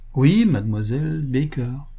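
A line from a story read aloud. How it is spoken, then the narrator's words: Unaccommodating tone. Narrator (French): répéta Bertram d'un ton peu conciliant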